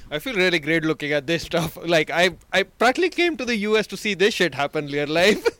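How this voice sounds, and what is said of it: Genuine foreign accent. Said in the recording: “that's a real accent ... That is not a yucked up accent at all.”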